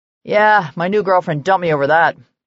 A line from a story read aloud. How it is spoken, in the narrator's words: Connor grumbled